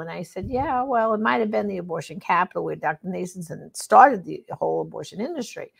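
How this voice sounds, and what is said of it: New York accent. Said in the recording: “I'm originally, tell by my accent, from New York”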